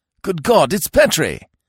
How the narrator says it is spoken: a voice, a voice that seemed to come from somewhere under the floor, snapped

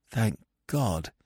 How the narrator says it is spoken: I said shakily

